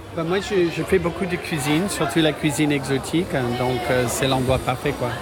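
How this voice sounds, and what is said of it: Slight American accent in French. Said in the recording (French): “Je reconnais un petit accent ... Je suis américain.”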